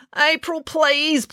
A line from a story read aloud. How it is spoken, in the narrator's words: pleaded Finn